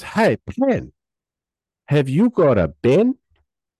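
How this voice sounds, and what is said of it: Imitated non-native English accent. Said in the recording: “English is his second language, so he spoke real fresh... because of his fresh accent”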